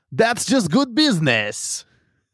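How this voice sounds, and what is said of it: Poor imitation of a character voice. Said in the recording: “the worst Hondo impression.”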